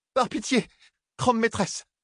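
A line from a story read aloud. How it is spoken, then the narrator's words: Hurried exclamation. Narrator (French): s'écria la sœur noire, après avoir à peine pris le temps de déglutir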